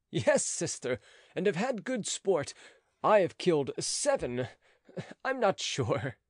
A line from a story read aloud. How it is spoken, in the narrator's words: continued he, laughing